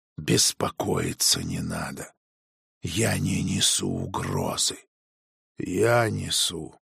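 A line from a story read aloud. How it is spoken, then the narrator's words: Whispered. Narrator (Russian): прошептал я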